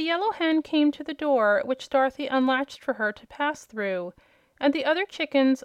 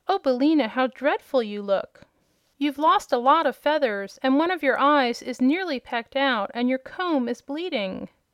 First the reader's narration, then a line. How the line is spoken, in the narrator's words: The girl exclaimed